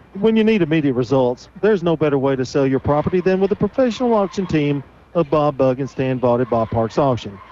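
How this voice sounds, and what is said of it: Deep theatrical radio announcer voice. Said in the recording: “That's my radio voice. ... I thought it was your theatrical read. ... kind of like James Earl Jones, Morgan Freeman kind of thing. ... Legendary and in a southern style.”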